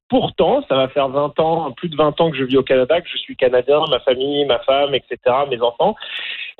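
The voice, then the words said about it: French-from-France accent, not Canadian. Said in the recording (French): “j'ai pas l'accent franco-canadien typique. J'ai un accent français de France”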